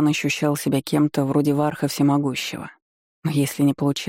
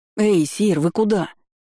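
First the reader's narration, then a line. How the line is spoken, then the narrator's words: Young man's sudden cry. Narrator (Russian): вскрикнул парень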